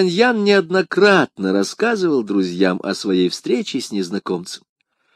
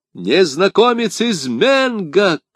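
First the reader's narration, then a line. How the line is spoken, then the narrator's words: Shouted reply. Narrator (Russian): крикнул в ответ Д'Артаньян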